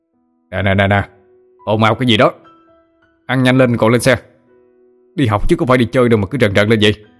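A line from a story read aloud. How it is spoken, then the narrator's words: Stern shouting teacher. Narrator (Vietnamese): Cả đám treo hò la hét ầm ĩ, đến nỗi thầy Thành phải quát lên để giữ trật tự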